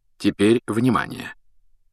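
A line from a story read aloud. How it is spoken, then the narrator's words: Quiet and distinct. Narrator (Russian): Дамблдор заговорил тихо и отчетливо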